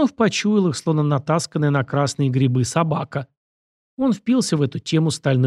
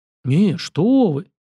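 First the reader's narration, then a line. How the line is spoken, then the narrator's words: Indignant exclamation. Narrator (Russian): воскликнул Сергеев, в голосе мужчины прозвучали нотки возмущения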